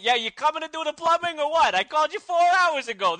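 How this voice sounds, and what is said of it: Put-on New York accent. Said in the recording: “Why is he from New York all of a sudden? ... It's a funnier accent”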